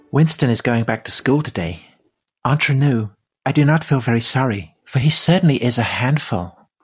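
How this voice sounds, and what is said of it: Jenny Churchill impression, Marilyn Monroe-like. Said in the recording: “Oh, is that Marilyn Monroe? ... That was Jenny Churchill. That was Winston Churchill's mother. She spoke exactly like that.”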